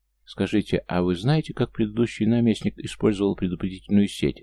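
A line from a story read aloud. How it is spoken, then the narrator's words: Plain. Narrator (Russian): наконец спросил архимаг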